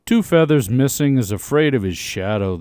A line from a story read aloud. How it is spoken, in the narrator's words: they sneered